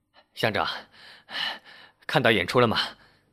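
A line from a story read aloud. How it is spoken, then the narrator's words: Slightly breathless question. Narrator (Chinese): 刘二微微地喘着气问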